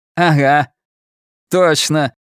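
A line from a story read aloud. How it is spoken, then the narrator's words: Laughing. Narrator (Russian): Ричи рассмеялся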